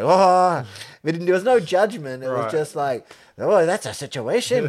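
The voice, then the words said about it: Put-on stage Irish accent. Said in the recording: “Sorry about my Irish accent... that sounds like a, like, stage Irish or something... Like a actor trying to do an Irish accent. I don't have an Irish accent.”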